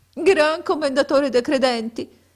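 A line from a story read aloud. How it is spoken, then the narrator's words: Sobbing, sighing. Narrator (Italian): rispose Abu Hassan con singhiozzi e reiterati sospiri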